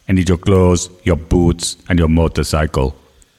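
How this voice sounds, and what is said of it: Arnold Schwarzenegger impression. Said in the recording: “did an Arnold Schwarzenegger impression”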